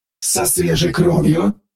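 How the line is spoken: Growling voice. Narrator (Russian): Рычащим голосом поинтересовалась Аврора

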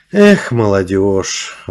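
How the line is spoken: Girl's sigh. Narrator (Russian): вздохнула девушка

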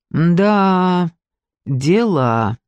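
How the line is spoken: Drawn-out drawl. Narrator (Russian): протянул Зиганшин

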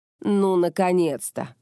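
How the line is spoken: Snorted. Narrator (Russian): хмыкнула Кёка

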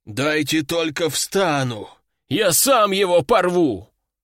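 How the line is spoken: Hoarse rasp. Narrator (Russian): прохрипел пришедший в себя аристократ

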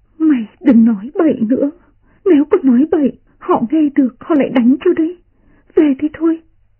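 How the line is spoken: Trembling voice. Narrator (Vietnamese): run run nói

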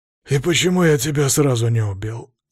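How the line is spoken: Weary question. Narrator (Russian): спросил устало

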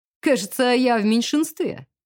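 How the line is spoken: Short laugh. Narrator (Russian): хохотнул Родрик

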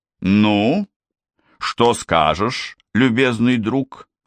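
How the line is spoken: Stern question after pause. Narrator (Russian): Выдержав значительную паузу, строгим голосом спрашивает завтруппы

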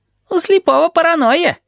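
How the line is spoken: Giggling. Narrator (Russian): хихикает Табаки

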